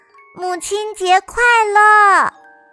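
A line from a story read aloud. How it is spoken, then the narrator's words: Loud cheerful greeting. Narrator (Chinese): 苏菲亚……大声祝福道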